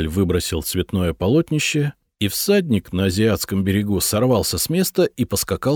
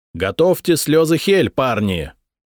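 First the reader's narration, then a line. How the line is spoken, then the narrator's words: Yelled. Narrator (Russian): заорал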